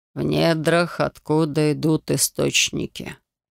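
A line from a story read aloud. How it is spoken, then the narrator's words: Muttered. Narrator (Russian): пробормотал Ксенарс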